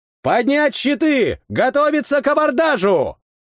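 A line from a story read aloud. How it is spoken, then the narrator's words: Shouted. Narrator (Russian): крикнул я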